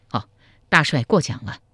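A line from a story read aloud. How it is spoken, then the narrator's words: Slight smile. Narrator (Chinese): 赵匡胤微微一笑说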